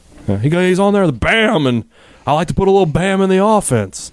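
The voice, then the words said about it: Imitates another person's voice. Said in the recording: “I'm working on my Leach impression. It's getting there.”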